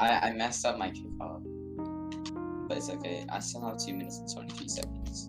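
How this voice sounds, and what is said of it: Usual voice. Nothing is said of it.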